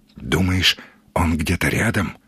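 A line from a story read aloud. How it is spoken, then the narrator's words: Whisper. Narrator (Russian): прошептал Сергей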